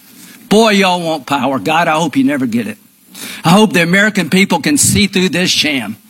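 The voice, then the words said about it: Southern accent, high-pitched voice. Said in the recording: “kind of this southern accent, but it's kind of a high-pitched voice”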